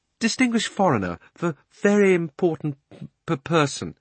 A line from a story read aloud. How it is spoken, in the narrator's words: he stammered